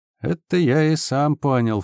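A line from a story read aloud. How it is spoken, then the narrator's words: Sighing. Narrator (Russian): Флинн вздохнул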